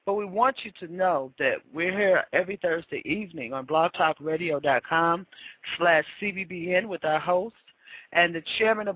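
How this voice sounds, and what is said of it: Hoarse, strained voice. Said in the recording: “you can see I'm losing my voice.”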